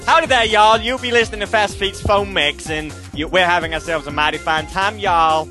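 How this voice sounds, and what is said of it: Exaggerated American accent. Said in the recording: “crap American accents ... If you want me to do an American accent, I can do it.”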